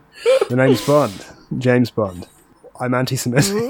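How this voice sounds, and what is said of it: James Bond character impression. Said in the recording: “my impression of anti-Semitic James Bond”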